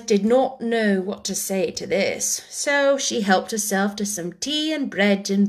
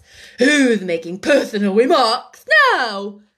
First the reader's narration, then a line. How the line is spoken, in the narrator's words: The Hatter said triumphantly